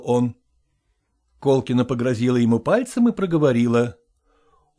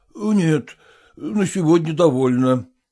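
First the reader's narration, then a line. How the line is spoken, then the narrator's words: Answering with heavy sigh. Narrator (Russian): отвечал Селезенкин, тяжело вздохнув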